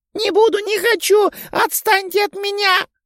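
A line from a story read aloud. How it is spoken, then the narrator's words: Girl screaming, face covered. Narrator (Russian): закричала девочка, закрывая лицо руками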